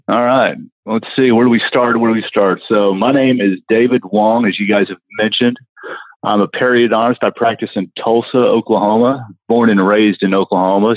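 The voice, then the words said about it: Thick Southern American accent. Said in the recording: “a little bit of a Southern accent ... the Asian guy with the Southern accent ... a very thick accent”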